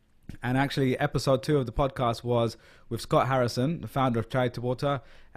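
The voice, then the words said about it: London English accent. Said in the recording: “I'm a Londoner, as you can probably tell from my accent”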